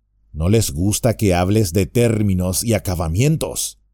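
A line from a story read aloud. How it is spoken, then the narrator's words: Plain. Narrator (Spanish): dijo Merry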